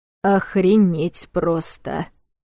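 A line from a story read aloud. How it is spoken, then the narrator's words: Muttered through teeth. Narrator (Russian): процедил Кира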